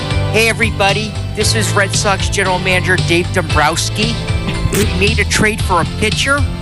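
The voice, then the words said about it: Imitates another person's voice, Midwestern. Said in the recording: “do my new impersonation ... people who talk like this ... He's from, like, North Dakota or Wisconsin.”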